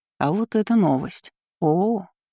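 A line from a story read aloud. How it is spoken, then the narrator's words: Drawn-out drawl. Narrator (Russian): Протянула Кейра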